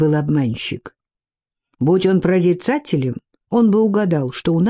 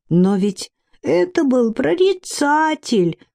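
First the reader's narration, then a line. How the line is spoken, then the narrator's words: Whimpering. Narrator (Russian): хныкала третья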